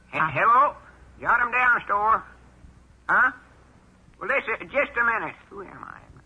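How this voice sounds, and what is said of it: High-pitched disguised voice. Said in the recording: “I'll use my high voice. That'll fool him.”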